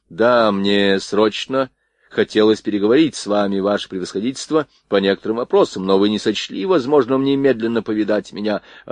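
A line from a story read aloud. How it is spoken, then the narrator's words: Plain. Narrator (Russian): ответил князь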